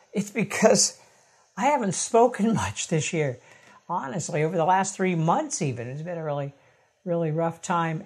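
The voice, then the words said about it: Strained, fading voice. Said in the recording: “If it sounds like I'm losing my voice”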